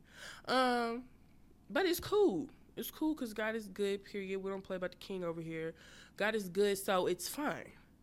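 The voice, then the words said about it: Congested, nasal voice. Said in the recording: “I have a sore throat, little stopped up nose, and yeah, I sound like I'm talking from the top of my nose.”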